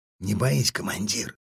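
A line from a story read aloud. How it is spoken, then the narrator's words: Whispered from behind. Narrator (Russian): шепнул за спиной Тапер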